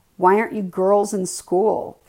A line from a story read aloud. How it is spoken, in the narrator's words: Kevin said loudly to me